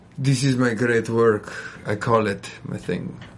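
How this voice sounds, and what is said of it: Attempted Italian accent, Dracula-like. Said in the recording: “Is that supposed to be an Italian accent there? ... It sounded like Dracula”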